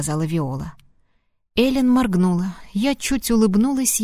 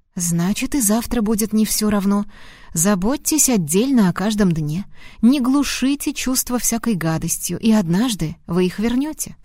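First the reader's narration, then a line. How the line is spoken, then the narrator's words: Plain. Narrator (Russian): сказала я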